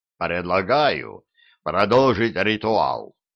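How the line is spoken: Low booming drone. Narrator (Russian): прогудел Диффенбахи

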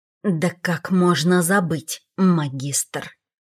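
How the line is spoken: Hissing. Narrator (Russian): прошипел Седрик

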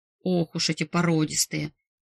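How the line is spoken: Grumbling boss. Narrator (Russian): буркнул босс

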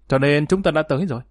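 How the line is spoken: Sharp, combative. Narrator (Vietnamese): Bành Tiểu Dạng đối chọi gay gắt mà nói

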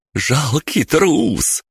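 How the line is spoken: Hysterical laughter. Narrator (Russian): истерично расхохоталась Бригитта

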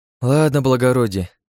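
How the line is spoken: Sighing. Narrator (Russian): вздохнула Настасья

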